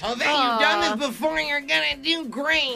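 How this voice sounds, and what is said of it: Speaks in a character voice. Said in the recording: “You don't have to do it in the character voice ... I kind of like it in the character voice.”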